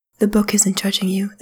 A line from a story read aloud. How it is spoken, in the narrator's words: the man says calmly